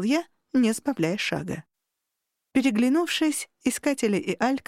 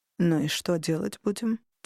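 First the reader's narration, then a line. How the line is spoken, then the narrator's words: Quiet question. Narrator (Russian): тихо спросил Варук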